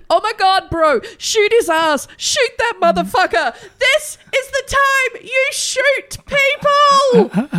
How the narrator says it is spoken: An onlooker shouts

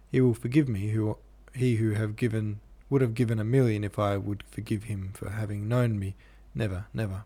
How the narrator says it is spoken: murmured, grinding her teeth

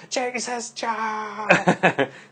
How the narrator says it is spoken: my mom shouts out

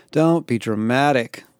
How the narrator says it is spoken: I sighed

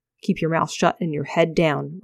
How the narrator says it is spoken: Ravier mumbled

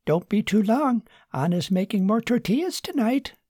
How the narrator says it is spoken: called out

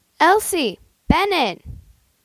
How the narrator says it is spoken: their mom shout

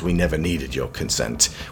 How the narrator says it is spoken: Binoche mutters

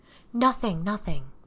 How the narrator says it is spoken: Patricia said in a soothing voice

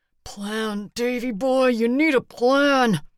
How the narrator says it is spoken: he said through his teeth

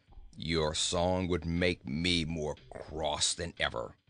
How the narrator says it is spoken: grumbled the goat

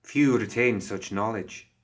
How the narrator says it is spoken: she said

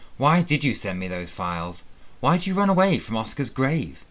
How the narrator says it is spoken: faltered, confused

